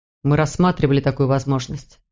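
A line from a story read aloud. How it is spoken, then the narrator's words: Plain. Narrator (Russian): сказал Мур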